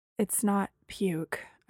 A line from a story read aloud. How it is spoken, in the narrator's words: I said faintly